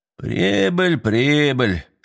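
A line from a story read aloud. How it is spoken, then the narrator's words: Grumbling. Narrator (Russian): снова заворчал дядя Лёва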